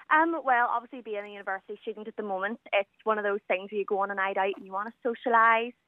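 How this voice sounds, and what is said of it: Northern Irish Belfast accent. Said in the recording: “So you're in Belfast? ... That's where you're from? Well, we can tell that by the accent.”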